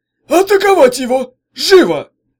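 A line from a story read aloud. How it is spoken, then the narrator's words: Loud command. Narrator (Russian): Он громко приказал новобранцам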